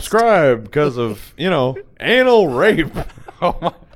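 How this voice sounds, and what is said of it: Imitates another person's voice. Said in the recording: “It's my Norm McDonald impression. ... Spot on.”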